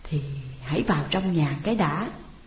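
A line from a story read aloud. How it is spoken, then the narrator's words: Stammering, stalling. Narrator (Vietnamese): Trang ấp úng trả lời để kéo dài thời giờ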